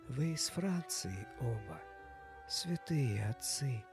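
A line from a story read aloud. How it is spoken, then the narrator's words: Whispered. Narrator (Russian): прошептала жена короля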